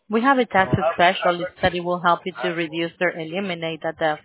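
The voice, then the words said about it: Thick accent. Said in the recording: “your accent is too thick for me”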